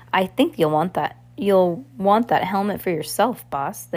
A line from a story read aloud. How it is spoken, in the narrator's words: the henchman said